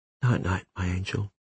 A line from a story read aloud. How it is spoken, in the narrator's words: whispered